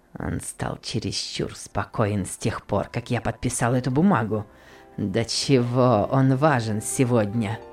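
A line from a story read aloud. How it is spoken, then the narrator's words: Grumbling through teeth. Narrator (Russian): ворчал сквозь зубы Гейли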